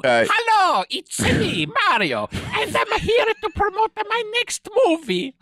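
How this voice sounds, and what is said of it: Exaggerated Italian cartoon character voice. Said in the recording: “I am indeed not an Italian stereotype ... Charlie Day has no Italian accent whatsoever”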